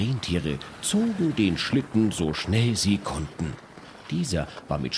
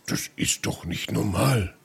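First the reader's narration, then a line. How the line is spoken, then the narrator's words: Grumbling Santa Claus. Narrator (German): brummte der Weihnachtsmann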